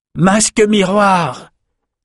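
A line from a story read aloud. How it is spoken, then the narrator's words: Shouted. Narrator (French): cria Rendel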